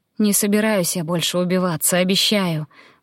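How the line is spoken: Sighing. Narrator (Russian): вздохнула

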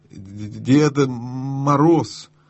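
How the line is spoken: Stammering. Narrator (Russian): запинаясь, ответил лис

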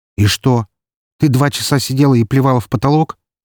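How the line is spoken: Angry question. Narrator (Russian): зло спросил я

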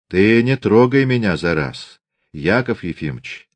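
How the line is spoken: Quiet. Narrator (Russian): тихо сказал он

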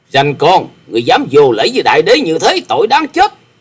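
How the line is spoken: Angry snort and roar. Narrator (Vietnamese): Độc Cước Đại Đế hừ lên một tiếng giận dữ quát lên

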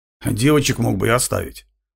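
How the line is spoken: Grumbling. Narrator (Russian): проворчал Крамер

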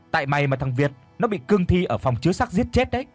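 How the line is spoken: Screaming while fleeing. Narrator (Vietnamese): thằng Tèo bỏ chạy mà miệng thì cứ gào thét

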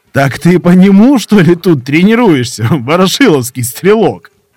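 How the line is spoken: Fit of laughter. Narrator (Russian): зашелся в хохоте

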